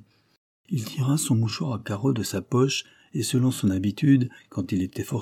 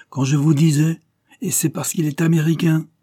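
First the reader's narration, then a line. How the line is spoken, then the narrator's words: Exclaimed. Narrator (French): s'écria-t-il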